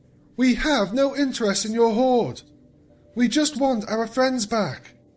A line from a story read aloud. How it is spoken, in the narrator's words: the Moon Princess called out once more